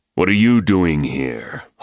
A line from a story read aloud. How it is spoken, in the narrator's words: Holt growled